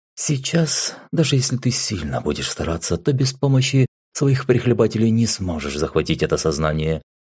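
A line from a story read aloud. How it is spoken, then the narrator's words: Calm. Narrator (Russian): спокойно произнесла Асаучи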